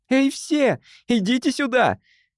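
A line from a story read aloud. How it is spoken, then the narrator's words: Shouted. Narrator (Russian): крикнула она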